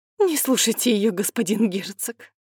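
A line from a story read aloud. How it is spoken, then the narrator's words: Babbling mother. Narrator (Russian): пролепетала мать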